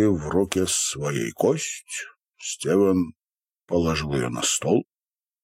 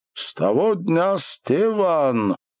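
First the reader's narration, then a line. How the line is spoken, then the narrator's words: Muffled scream through closed lips. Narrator (Russian): он криком кричал, уст не раскрывая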